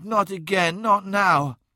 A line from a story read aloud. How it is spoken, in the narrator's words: she moaned